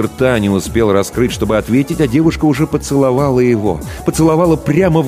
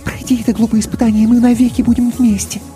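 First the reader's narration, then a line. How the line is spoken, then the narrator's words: Quick whisper. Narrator (Russian): Мийка быстро шепнула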